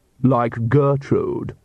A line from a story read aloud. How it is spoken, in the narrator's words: sneered